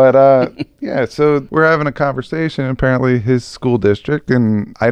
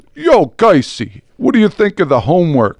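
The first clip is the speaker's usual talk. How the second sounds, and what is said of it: Put-on heavy Brooklyn New York accent. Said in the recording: “Like a heavy New Yorker accent, kind of. ... I'll do my impression ... I'm not going into Brooklyn the whole time because I don't think it's doing the Brooklyn accent the correct way.”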